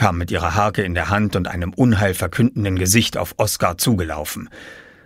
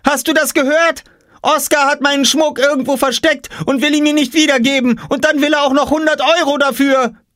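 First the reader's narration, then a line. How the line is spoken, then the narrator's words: Shouting. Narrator (German): schrie Jule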